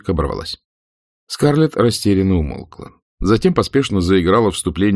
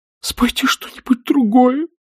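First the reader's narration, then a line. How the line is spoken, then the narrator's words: Weak, strained cry. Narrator (Russian): Фенни крикнула слабым, сдавленным голосом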